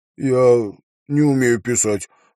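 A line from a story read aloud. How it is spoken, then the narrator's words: Glum boy. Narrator (Russian): уныло сказал парнишка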